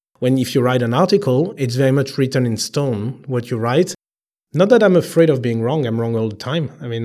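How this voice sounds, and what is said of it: Heavy French accent. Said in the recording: “I'm not an English native, as you can hear with the heavy French accent.”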